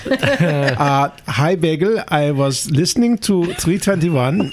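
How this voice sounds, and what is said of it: Pretty good put-on German accent. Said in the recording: “The German accent, please. ... Pretty good.”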